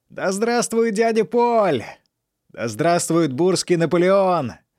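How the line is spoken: Drunken excited yelling. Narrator (Russian): орал Фанфан, пьянее от собственных слов

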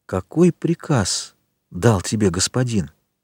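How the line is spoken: Barely audible question. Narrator (Russian): едва слышно спросила Селима

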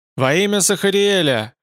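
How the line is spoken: Shouting downward. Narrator (Russian): крикнул он вниз

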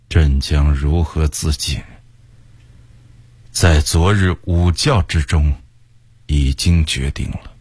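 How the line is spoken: Sighing. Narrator (Chinese): 崇祯叹了口气向魏工人说

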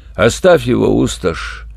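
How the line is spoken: Hopeless, lifeless voice. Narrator (Russian): безнадежным мертвым голосом сказал ящик

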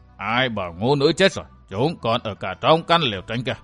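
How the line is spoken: Cold question. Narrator (Vietnamese): Tăng Mộc Tôn giả lạnh lùng hỏi

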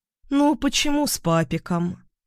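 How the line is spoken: Calm objection. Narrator (Russian): спокойно возразила Ольга

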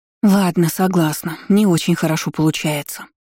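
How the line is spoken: Sigh. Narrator (Russian): вздохнула Люсьена

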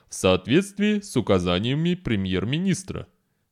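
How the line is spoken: Calm. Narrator (Russian): спокойно сказал Шект

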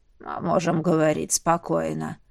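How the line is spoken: Hoarse reassurance. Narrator (Russian): хрипло заверил

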